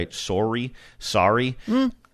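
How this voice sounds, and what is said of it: Ohio accent on 'sorry'. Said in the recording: “You're going to hear my Ohio accent in that word, too, right?”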